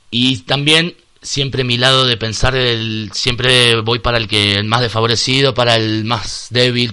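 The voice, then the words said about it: Argentine Spanish accent. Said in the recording (Spanish): “tu acento es poco asturiano, tiene pinta de ser argentino”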